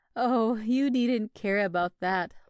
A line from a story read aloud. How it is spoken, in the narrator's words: laughed Deborah, in a rather hard tone for her